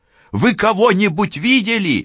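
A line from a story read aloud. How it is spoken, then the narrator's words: Shouting woman. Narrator (Russian): крикнула Францискович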